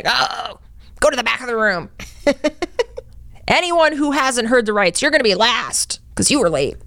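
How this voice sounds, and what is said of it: Imitates a stern, mean judge. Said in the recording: “That is how a couple of them sound. ... I'm good at imitating judges. But the mean ones.”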